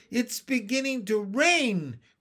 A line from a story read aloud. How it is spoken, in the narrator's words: cried Henry